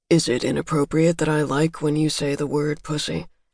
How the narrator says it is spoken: murmured

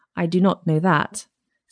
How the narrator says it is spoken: said the princess

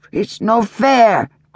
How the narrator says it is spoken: cried one six-year-old

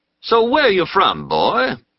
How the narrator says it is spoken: a tall man asked, in a conciliatory voice

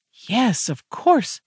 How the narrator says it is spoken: exclaimed, nearly gleefully

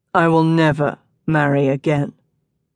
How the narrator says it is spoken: Geo declared grimly

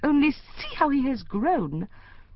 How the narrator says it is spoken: Emerson gasped

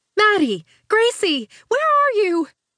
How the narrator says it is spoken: a woman's voice cried

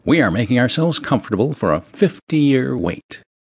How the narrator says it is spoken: Hubert brightly said

